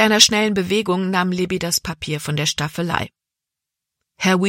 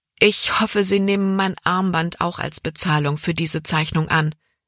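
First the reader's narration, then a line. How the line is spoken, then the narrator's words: Plain. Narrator (German): sagte sie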